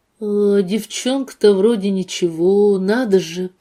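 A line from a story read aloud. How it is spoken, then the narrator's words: Disappointed drawl. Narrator (Russian): протянул он разочарованно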